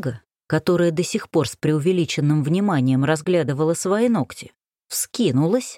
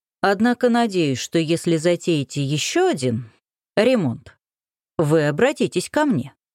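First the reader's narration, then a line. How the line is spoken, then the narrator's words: Plain. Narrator (Russian): сказал Крутогоров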